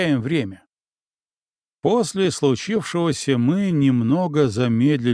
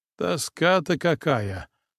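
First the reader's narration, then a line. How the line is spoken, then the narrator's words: Grumbling. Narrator (Russian): бурчал Минин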